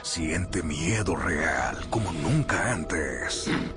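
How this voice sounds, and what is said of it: Monster voice. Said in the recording (Spanish): “esa voz de monstruo”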